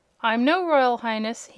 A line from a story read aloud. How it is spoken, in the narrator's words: he said